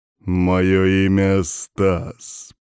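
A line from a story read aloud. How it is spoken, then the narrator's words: Deep guttural growl. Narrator (Russian): утробно прорычал я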